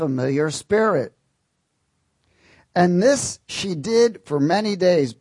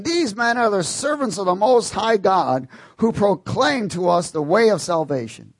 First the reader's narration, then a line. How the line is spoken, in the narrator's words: girl cried out, saying